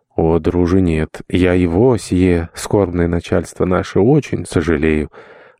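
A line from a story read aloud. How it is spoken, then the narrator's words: Archpriest answering with sigh. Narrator (Russian): отвечал, вздохнув, протопоп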